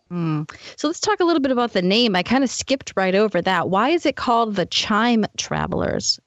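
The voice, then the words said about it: Boston accent. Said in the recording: “my lovely Boston accent”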